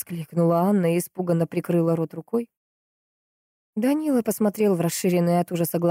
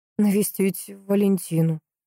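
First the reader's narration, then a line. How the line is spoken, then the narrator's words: Uncertain. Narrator (Russian): неуверенно проговорил Данила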